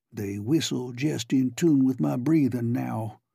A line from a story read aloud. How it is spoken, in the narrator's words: he said